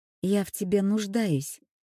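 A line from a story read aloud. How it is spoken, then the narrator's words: Quiet and clear. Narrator (Russian): тихо и внятно сказала она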